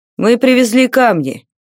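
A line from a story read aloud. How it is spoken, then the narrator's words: Tired. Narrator (Russian): сказал он устало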